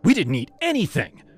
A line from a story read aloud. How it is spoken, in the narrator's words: Jess snapped